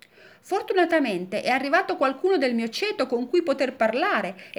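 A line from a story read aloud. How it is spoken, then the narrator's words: Exclamation. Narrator (Italian): esclamò la palla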